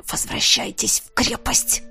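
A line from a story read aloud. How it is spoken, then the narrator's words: Strained, desperate hiss. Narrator (Russian): Прошипел я, поняв, что еще немного, и мне действительно станет все равно, кем питаться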